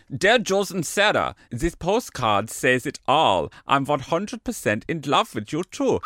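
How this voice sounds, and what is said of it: Put-on German accent. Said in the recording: “I shall go for this German accent.”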